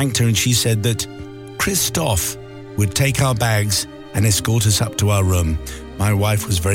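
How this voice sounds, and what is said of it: Usual voice. Nothing is said of it.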